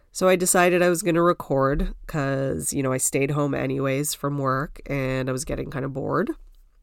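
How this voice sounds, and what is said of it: Sniffly, congested, slightly hoarse voice. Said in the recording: “I was losing my voice on Saturday and then Sunday it was like pretty bad. And still pretty bad. ... I'm sorry if I'm like sniffly or congested.”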